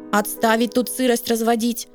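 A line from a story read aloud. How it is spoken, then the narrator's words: Stern command. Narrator (Russian): грозно скомандовал Василий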